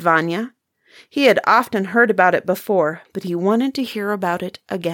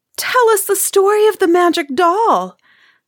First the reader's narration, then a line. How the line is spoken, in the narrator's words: begged Marusia